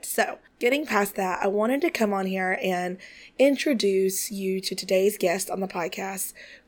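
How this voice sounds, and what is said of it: Congested, odd-sounding voice. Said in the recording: “My voice sounds weird again because sinuses, allergies, all the things ... I just sound odd”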